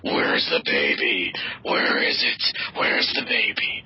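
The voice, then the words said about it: Imitates a Batman film character. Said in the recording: “why are they doing these impersonations?”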